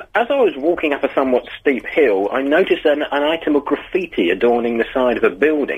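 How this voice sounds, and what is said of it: Put-on posh accent. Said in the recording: “talking all posh”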